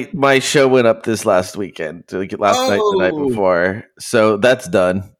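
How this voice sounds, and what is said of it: Tired, exhausted-sounding voice. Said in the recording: “I'm exhausted, dude. ... You sound exhausted.”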